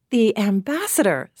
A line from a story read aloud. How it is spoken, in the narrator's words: said the girl warmly